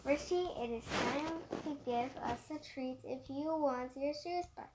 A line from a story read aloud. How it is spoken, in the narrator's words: laugh and say